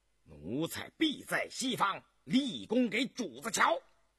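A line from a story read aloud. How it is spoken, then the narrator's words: Loud reply. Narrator (Chinese): 年羹尧大声答应道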